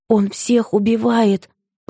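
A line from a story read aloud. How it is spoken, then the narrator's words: Hoarse rasp. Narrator (Russian): прохрипела она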